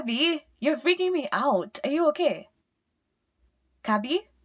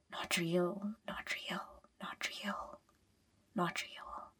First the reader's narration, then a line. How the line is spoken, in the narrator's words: she whispers